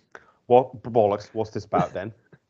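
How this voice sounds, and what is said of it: Put-on British accent. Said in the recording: “the best British accent”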